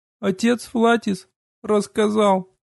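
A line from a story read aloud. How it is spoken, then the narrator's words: Sobbing, choked mumble. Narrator (Russian): Схлипывая, заревев еще сильнее, сквозь рыдание, сдавленно пробормотала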